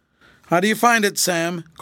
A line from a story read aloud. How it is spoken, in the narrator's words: called Fred anxiously